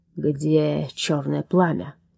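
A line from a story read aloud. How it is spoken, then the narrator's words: Menacing hiss. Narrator (Russian): угрожающе прошипел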